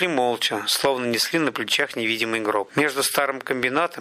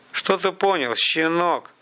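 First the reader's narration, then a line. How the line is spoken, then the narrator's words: Through gritted teeth. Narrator (Russian): процедил тот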